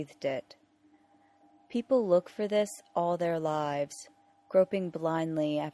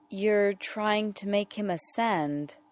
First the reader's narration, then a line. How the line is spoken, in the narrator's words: Rodney said slowly